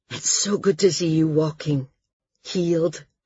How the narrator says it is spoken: he said, in his deep, warm voice

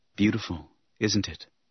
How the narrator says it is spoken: He said softly

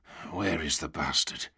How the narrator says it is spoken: Havelock whispered

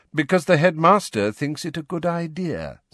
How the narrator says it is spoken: said Snape smoothly

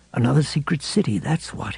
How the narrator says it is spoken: he murmured

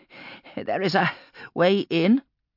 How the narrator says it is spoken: panted Geddon, almost collapsing against the rock face

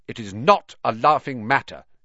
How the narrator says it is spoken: he said coldly

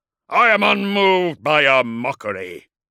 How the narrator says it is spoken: boomed Magnaric

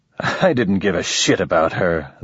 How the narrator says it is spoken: the man said, chuckling

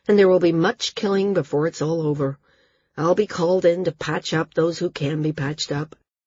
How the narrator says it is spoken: he said, his voice weary

